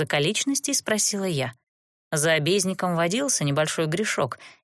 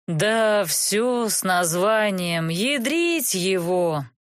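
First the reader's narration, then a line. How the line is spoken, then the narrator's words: Miserable man's moan. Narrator (Russian): простонал несчастный мужик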